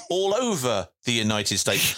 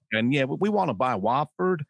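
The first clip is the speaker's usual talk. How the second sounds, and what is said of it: Poor generic American accent. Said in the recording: “What particular part of the United States was that from? ... That was an accent, really ... Very generic ... some kind of homogenised US accent there, which worked on no level”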